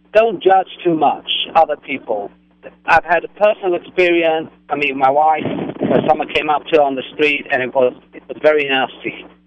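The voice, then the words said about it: Regal British accent. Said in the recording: “your very regal accent ... you are from Great Britain”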